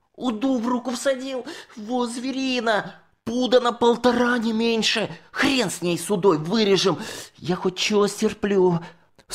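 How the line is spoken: Shrieking and sobbing. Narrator (Russian): Санька визжал, взрыдывал

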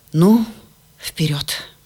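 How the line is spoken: Deep breath, resolute. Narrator (Russian): Папа глубоко вздохнул и сказал

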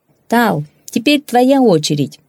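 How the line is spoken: Shouting. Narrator (Russian): крикнул парень

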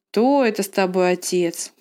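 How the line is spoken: Grumbling mutter. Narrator (Russian): пробурчала она

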